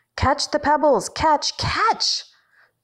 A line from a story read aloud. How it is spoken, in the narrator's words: In her dreams, Hansa and Piece of Shit are running away from her, yelling